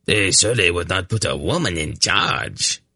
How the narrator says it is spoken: Throsta scoffed

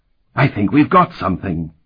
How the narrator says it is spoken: he exclaimed with a scholar's enthusiasm

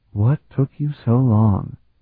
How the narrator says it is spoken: She breathed

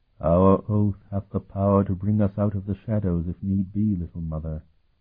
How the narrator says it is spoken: the form of Lacus replied, his voice also hollow and void of all emotion

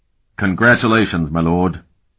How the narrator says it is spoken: Curic said gruffly

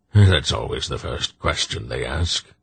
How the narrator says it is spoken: Belgarath said dryly to Silk

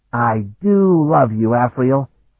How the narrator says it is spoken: he said with a delighted laugh

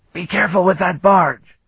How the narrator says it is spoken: he bellowed in Tamil

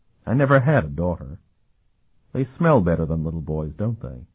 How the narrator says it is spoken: Sophronia burst out laughing

